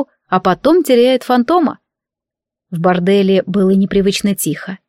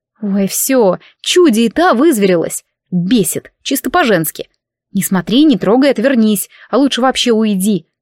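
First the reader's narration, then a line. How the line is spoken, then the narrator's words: Silent hissing thought. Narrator (Russian): Мысленно шипела подобно своему фантому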